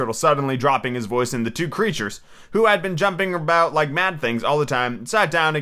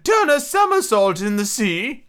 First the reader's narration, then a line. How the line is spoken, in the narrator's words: cried the mock turtle